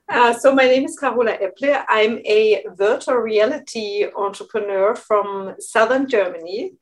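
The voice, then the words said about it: German-accented English. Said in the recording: “your lovely accent”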